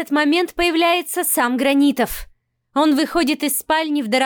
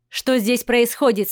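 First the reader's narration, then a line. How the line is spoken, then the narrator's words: Stern question. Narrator (Russian): спрашивает он строго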